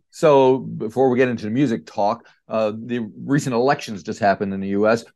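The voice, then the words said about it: American East Coast accent. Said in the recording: “you can tell by my accent, I'm American, but I'm from East Coast, upstate New York area”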